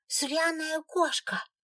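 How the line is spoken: Childish shout. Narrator (Russian): Вслед им совсем по-детски выкрикнула Аленка

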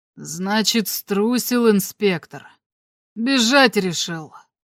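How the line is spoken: Hoarse voice after sigh. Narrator (Russian): вздохнул и сказал сиплым голосом

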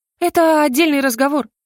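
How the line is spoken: Sighing. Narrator (Russian): вздохнула Лайза

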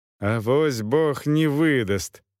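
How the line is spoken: Monk sighing. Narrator (Russian): вздохнул монах

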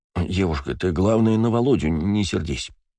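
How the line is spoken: Mumbling. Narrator (Russian): забормотал он

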